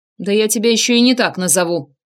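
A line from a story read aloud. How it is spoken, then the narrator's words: Barked. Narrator (Russian): рявкнул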